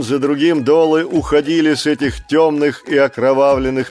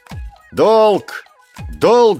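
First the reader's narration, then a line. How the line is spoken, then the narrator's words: Shouting. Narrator (Russian): закричал Маугли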